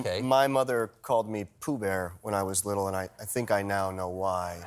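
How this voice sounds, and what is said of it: Unusually low, tired voice. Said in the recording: “my voice is like an octave lower from exhaustion”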